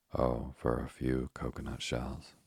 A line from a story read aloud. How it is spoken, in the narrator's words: sighed Ernest